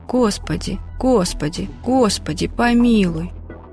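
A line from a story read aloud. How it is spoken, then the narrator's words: Quiet murmured prayer, teenager. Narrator (Russian): я, невоцерковленный подросток, начала тихо приговаривать про себя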